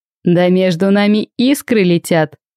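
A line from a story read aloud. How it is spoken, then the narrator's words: Short laugh. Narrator (Russian): хохотнул Нуар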